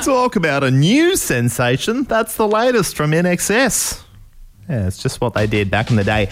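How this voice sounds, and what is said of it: 1980s radio DJ voice. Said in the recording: “my impression of a DJ from 1987”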